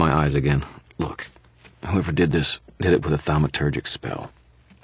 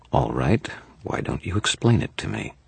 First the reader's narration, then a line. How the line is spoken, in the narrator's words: said in a deadly, reasonable tone